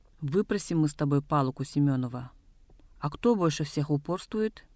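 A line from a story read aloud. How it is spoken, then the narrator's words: Angry. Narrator (Russian): Староста сердито сказал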